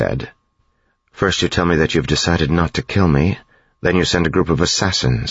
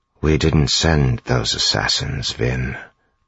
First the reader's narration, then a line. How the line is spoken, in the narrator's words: Zane said quietly